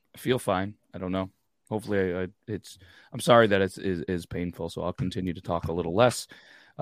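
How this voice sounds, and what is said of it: Hoarse, fading voice. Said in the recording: “Right before the show, I started losing my voice.”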